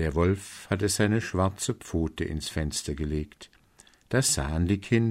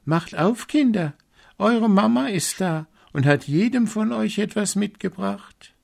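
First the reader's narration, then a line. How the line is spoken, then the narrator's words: Call. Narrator (German): rief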